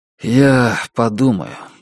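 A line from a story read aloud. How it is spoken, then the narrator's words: Tired. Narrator (Russian): устало сказал Джек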